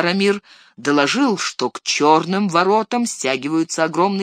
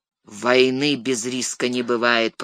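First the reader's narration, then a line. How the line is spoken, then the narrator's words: Grumbling. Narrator (Russian): проворчал Денетор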